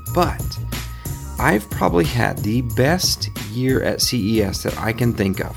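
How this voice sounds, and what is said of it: Tired, worn-out voice. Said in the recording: “If I sound tired ... I am wiped out”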